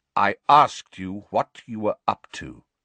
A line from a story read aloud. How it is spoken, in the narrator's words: said Sirius coldly